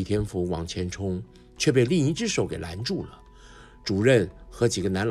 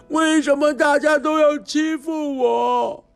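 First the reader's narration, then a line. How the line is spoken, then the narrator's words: Desperate roar. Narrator (Chinese): 他用尽力气大声吼着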